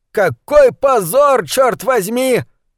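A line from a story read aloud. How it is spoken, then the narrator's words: Yelling. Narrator (Russian): заорал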